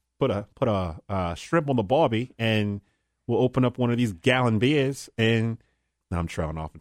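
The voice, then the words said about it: Put-on Australian accent, pretty good. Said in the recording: “Can you hate somebody with an Australian accent? ... Yours is better than mine. ... It's actually pretty good.”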